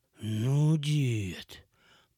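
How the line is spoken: Drawled, poorly hidden surprise. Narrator (Russian): протянул я с плохо скрываемым удивлением

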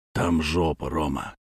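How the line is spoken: Quiet. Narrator (Russian): сказал он тихо

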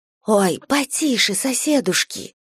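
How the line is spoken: Young woman's whisper. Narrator (Russian): прошептала молодая товарка

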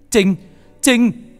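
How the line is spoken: Shout. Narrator (Vietnamese): Khải hét lên

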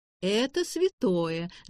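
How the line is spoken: Laughing. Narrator (Russian): засмеялась Нина

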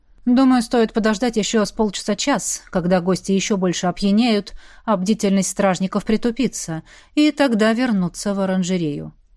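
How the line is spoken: Plain. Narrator (Russian): сказал Ронал

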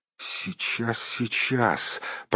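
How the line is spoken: Mumbling. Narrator (Russian): пробормотал Бильбо

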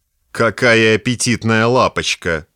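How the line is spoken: Drunken slur, loud hiccup. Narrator (Russian): произнес заплетающимся языком и громко икнул

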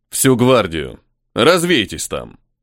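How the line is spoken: Snort. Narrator (Russian): хмыкнул Карн

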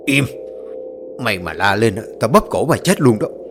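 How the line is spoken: Drunk man's harsh growl. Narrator (Vietnamese): một người đàn ông đang say rượu gằn giọng

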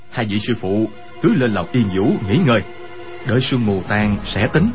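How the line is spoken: Low, worried. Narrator (Vietnamese): Quách Tĩnh sợ hai vị sư phụ gặp chuyện bất trắc, hạ giọng nói

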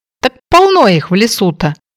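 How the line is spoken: Joyful exclamation. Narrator (Russian): обрадованно воскликнул Тоби

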